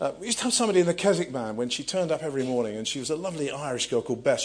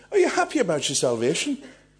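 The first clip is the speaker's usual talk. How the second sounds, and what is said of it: Poor put-on Irish accent. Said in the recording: “I'm going to try an Irish accent ... No, it was rubbish, wasn't it?”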